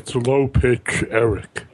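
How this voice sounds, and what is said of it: Put-on deep low voice. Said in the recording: “does that deep voice ... nobody will recognize my voice. I'll make it deep.”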